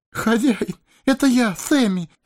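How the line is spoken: Sobbing. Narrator (Russian): всхлипнул хоббит

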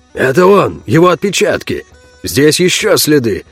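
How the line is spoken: Surprised exclamation. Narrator (Russian): удивленно воскликнул Роше

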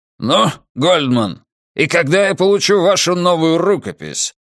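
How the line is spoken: Barked. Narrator (Russian): рявкнул он

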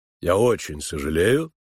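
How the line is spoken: Cold. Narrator (Russian): холодно сказал Финджи

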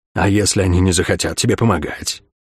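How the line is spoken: Whisper of darkness. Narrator (Russian): прошептал мрак

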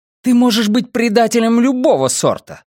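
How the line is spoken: Exclaiming. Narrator (Russian): воскликнула Майя

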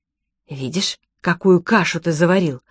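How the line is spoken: Hissing. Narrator (Russian): прошипела Софи Хоулу

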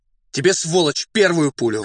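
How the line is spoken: Shouted. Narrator (Russian): крикнул Фондорин татарину

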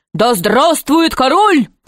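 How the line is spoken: Courtiers shouting. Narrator (Russian): закричали придворные

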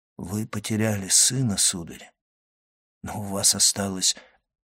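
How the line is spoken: Barely audible, humble. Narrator (Russian): Монте-Кристо едва слышно, почти смиренно произнес

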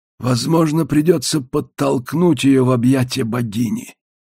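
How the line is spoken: Thoughtful mutter. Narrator (Russian): задумчиво пробормотал Длиннотень

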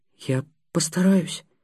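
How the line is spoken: Barely audible. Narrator (Russian): еле слышно выговорил Будимир

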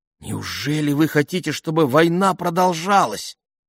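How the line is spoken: Shocked exclamation. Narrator (Russian): потрясенно воскликнула она

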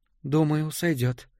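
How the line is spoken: Quiet. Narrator (Russian): тихо произнесла Джая

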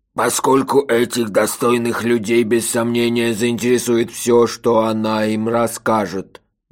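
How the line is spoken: Wooden, flat voice. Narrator (Russian): деревянным голосом закончил сэр Бубута

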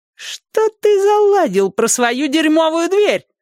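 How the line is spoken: Squeaky, small man. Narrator (Russian): запищал коротышка

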